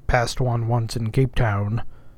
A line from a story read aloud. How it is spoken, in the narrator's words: said the old man sullenly